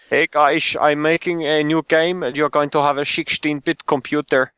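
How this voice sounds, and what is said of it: Put-on Dutch accent. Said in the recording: “I know this is Dutch accent, but I don't know what the Swedes sound like ... whatever Swedish, not Swedish Dutch accent ... I knowingly did a Dutch accent”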